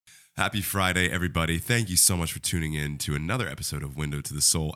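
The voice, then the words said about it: Nasal, congested voice. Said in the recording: “I sound like a nasally congested mess because I am.”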